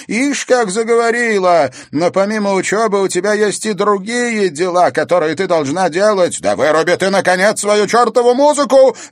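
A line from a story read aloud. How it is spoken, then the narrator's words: Sudden bark. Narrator (Russian): рявкнула вдруг она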